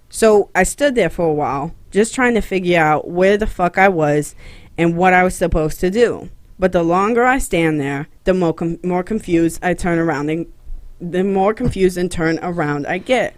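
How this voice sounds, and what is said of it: Heavy put-on Boston accent. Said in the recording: “That accent's hard to keep up, dog. ... You're going hardcore, like you're like Joey from Friends Boston.”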